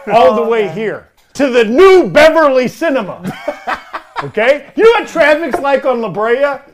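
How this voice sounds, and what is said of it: Entitled white guy character voice. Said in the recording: “this is not a great Homelander impression ... it's just me being an entitled white guy”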